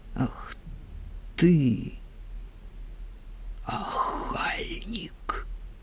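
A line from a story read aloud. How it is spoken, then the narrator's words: Quiet. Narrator (Russian): тихо сказала Аграфена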